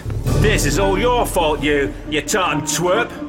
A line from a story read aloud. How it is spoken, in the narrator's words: Ben shouted